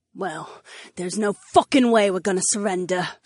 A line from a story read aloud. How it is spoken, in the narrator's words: Sienna growled to Captain Barnes